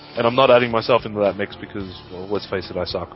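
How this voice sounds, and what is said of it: Australian accent. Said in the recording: “Add the Aussie accent”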